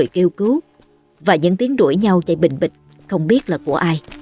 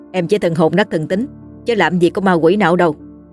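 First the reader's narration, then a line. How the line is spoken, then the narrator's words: Laughing, teasing. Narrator (Vietnamese): Dương bật cười trêu chọc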